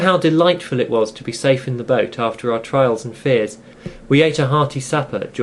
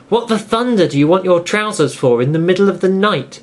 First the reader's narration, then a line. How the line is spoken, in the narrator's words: asked indignantly